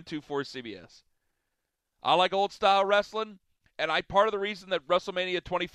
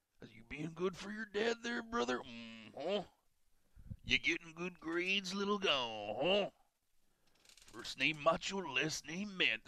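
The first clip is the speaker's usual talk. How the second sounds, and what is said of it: Bruce Pritchard imitating Macho Man. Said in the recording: “doing an impression of Bruce Pritchard doing an impression of Macho Man”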